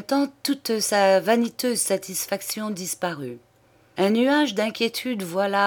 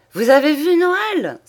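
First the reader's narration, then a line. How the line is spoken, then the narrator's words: Old man exclaiming. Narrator (French): s'écria le bonhomme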